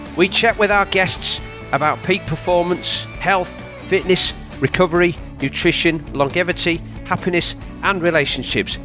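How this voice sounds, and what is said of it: Yorkshire English accent. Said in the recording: “you'll always hear a Yorkshire accent”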